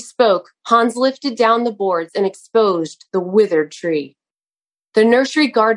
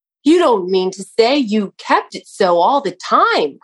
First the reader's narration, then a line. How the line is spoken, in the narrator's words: cried